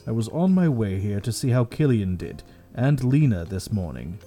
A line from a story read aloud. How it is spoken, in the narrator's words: he said gravely